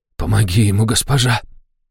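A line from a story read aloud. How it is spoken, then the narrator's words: Hoarse, tearful whisper. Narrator (Russian): хрипло прошептал Ришнис, и его глаза увлажнились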